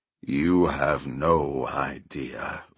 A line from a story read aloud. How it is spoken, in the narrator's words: Ushione growled